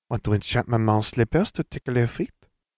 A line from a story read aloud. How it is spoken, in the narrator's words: Fleur laughed